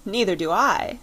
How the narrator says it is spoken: said Bessie, with a little laugh

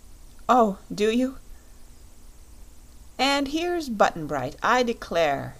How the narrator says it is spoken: cried Santa Claus

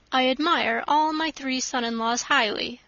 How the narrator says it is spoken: said he

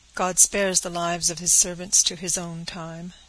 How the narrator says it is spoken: said the peddler solemnly

